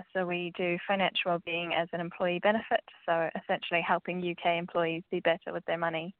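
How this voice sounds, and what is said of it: New Zealand accent. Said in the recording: “as you might be able to tell from my accent, I am from New Zealand.”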